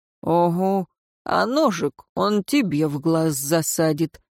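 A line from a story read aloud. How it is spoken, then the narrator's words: Grumbled. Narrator (Russian): буркнул старшина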